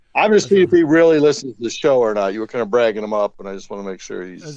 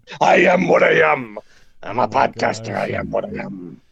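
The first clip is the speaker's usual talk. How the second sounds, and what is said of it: Bad Popeye cartoon voice. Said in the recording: “It's like such a bad Popeye or something that you're doing.”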